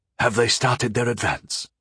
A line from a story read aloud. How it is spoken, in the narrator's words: asked hoarsely